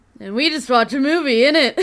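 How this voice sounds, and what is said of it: Put-on Scottish accent. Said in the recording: “inscrutable Scottish accent ... accent, which was just spot on”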